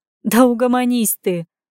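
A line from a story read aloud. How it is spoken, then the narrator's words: Laughing. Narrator (Russian): Рассмеялась она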